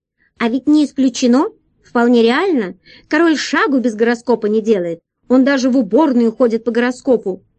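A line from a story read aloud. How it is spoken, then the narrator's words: Shouted from above. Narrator (Russian): Дурында крикнула сверху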